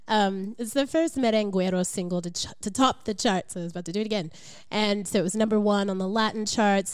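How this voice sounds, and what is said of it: Congested voice from a cold. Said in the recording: “I have a little bit of a cold, so I'm going to sound pretty funny.”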